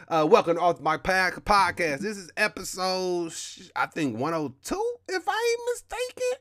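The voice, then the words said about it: Black American accent. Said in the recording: “the black American accent ... my accent ... sometimes I be struggling with words and I be stuttering”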